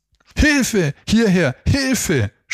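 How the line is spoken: Screaming for help. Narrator (German): schrien Tina und Philipp weiter

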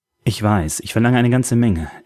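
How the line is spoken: Sighing. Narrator (German): seufzte

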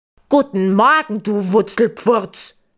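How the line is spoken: Very loud bellowing. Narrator (German): brüllt Gustav nun sehr laut

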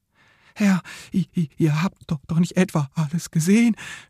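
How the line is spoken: Worried stammer. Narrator (German): stammelte Rebelwitsch besorgt

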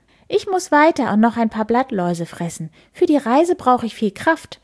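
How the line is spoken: Bird's chirping voice. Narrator (German): zwitschert er

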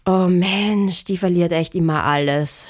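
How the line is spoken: Annoyed groan. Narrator (German): stöhnte der Edi genervt

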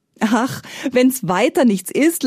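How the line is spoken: Laughing minstrel. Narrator (German): lachte der Spielmann

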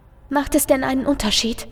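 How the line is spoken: Soft voice. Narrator (German): lässt sich eine leise Stimme vernehmen

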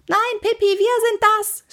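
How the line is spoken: Scream. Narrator (German): schrie Annika

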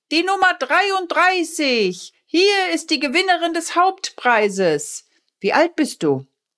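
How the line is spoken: Calling out. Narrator (German): Der Feuerwehrmann rief

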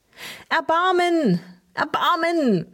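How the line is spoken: Crying out. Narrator (German): rief Tinus

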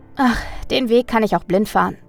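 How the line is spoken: Calm answer. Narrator (German): antwortete Mina mit ruhigem Ausdruck

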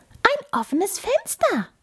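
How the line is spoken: Squeaky mouse voice. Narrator (German): piepste die Maus

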